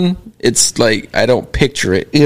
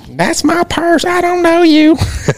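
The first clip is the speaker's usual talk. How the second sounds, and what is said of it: Imitates a cartoon character's voice. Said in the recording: “Can you do Bobby Hill? ... There's my impression.”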